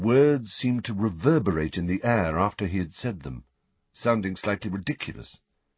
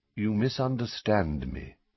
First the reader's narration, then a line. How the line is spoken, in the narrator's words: said Dumbledore, still in the same calm tone